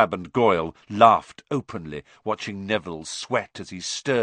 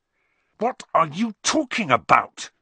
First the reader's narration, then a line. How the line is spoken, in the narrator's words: said Harry angrily